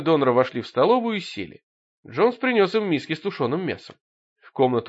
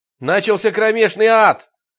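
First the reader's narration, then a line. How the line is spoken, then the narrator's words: Shout. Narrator (Russian): крикнул он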